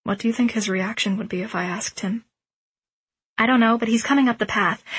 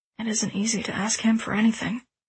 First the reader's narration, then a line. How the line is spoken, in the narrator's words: he murmured